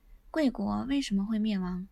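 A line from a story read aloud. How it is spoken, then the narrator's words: Sighing old man. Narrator (Chinese): 老者 叹息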